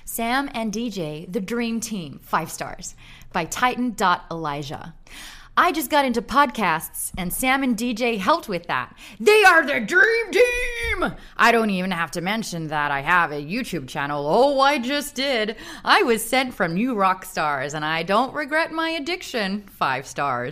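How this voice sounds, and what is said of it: Put-on American accent. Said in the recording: “I'm gonna do it in my American accent”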